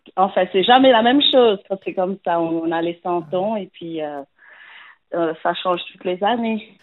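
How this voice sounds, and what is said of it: Slight accent. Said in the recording (French): “Vous avez un petit accent”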